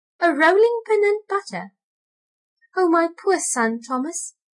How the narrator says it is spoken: exclaimed Tabitha

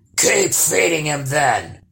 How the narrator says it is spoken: grumbled the troll

